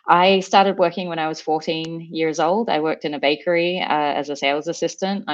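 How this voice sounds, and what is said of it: Australian accent. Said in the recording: “if you can't pick the accent, I'm originally from Sydney, Australia”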